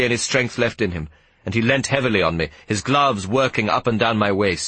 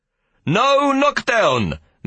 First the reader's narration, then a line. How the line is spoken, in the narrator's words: Meneer de Klerk shouted